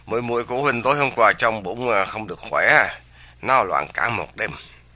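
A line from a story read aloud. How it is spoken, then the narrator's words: Sighing reply. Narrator (Vietnamese): Dương Thu Trì thở dài đáp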